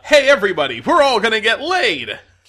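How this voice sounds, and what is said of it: Rodney Dangerfield impression. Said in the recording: “It's Rodney Dangerfield ... That was a good impression. ... you really got the spirit”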